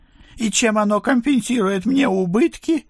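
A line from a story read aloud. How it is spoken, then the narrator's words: Howling. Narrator (Russian): взвыл месье Бронштейн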